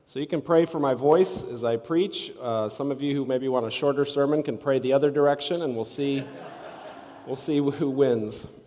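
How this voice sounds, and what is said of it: Congested, strained voice after sinus illness. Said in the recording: “As you can maybe tell by my voice, I'm getting over a sinus thing. I'm feeling a lot better, but my voice is sort of still hanging on, barely.”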